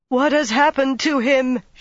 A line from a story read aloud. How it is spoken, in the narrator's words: she wailed